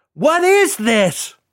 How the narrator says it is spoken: He shrieked

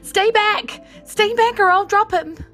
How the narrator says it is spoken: She screams at them

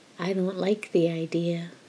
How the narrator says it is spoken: Crowley whispered

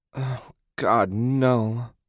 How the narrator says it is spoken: Susan moaned

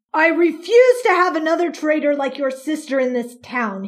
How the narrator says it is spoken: he spat

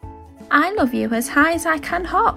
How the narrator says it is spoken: laughed Little Nut Brown Hare, bouncing up and down

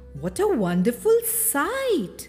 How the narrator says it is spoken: they exclaimed

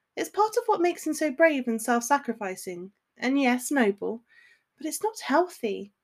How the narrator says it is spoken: sighed Hermione

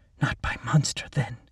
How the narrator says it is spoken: she said in a quiet voice

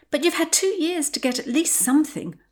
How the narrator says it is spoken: Potty whined

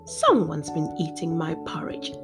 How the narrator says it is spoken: growled the papa bear

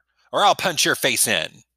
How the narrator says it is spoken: snapped at her

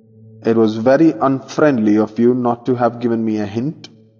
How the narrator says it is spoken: exclaimed, furiously indignant

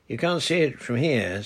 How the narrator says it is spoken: said Peggy

